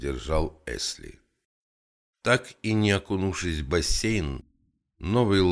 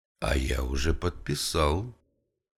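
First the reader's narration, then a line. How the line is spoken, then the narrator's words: Plain. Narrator (Russian): ответил президент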